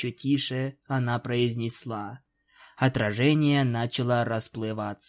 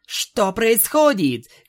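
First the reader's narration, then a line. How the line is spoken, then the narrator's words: Unicorn shouting. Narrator (Russian): крикнула единорожка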